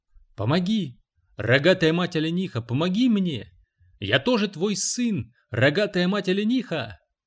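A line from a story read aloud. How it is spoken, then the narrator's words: Loud shouting. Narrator (Russian): Громко кричал он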